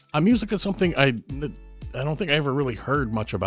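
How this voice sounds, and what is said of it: Usual voice. Nothing is said of it.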